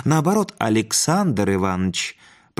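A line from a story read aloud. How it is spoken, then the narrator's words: Warm, smiling. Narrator (Russian): произнес незнакомец, ласково улыбаясь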